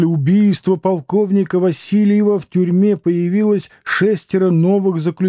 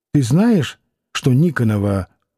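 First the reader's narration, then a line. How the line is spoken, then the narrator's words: Quick whisper. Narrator (Russian): Варвара спросила быстрым шепотком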